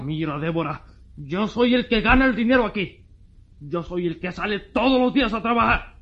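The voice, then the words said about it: Shouting angrily. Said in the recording (Spanish): “¡Estás gritando! ¡Toda la vecindad te oye también!”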